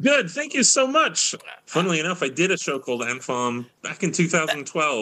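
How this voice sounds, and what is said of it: British accent. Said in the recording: “the British accent”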